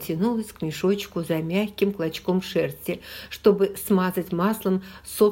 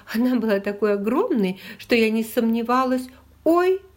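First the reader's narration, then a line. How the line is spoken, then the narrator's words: Throaty affectionate laugh. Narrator (Russian): Лиззи рассмеялась гортанным ласковым смехом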